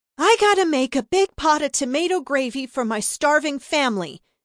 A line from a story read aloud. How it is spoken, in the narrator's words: Bella yelled over the infant's wailing